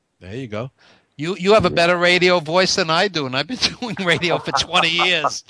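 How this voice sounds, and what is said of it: Brooklyn accent. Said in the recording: “So I have my Brooklyn accent.”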